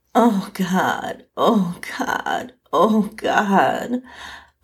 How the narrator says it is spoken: I moaned over and over

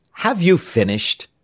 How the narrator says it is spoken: asked the captain very impatiently

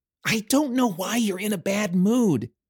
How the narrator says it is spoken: Tink gasped for breath as she climbed behind him

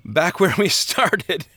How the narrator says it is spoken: Christian laughed

